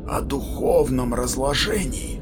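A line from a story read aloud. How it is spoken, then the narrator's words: Wary whisper. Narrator (Russian): прошептал Кванзу, настороженно озираясь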